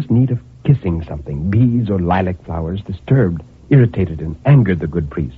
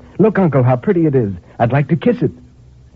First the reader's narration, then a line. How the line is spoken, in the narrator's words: cried in bringing it back in triumph